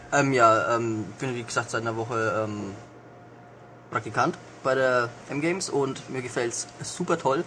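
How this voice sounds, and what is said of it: Lower Franconian German dialect accent. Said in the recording (German): “in äh, Unterfranken ... schrecklicher Akzent, Dialekt ... Dialekt. Ähm, ja, das könnte schlimmer sein”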